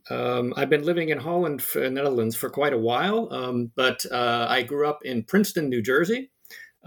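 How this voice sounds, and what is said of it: American English accent. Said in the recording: “as you might notice from my accent, I'm actually American originally”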